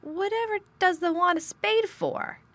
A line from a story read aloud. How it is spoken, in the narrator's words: asked Martha, laughing